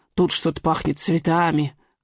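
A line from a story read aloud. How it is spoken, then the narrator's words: Muttering old man. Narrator (Russian): бормочет старик-смотритель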